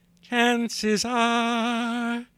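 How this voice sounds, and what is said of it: Imitates a crooning singer's voice. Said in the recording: “my Johnny Mathis impression”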